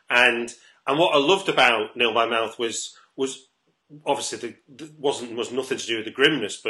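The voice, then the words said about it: North Manchester English accent. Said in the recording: “as you might be able to tell from accent, I didn't go to public school myself ... I grew up in North Manchester”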